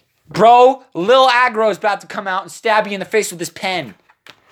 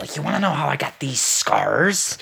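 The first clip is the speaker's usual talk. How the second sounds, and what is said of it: Poor impression of the Joker. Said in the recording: “I do a terrible Joker impression”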